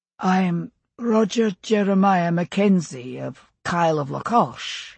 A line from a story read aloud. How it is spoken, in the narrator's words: he said, keeping his voice mild and, he hoped, assured, as some compensation for his shabby appearance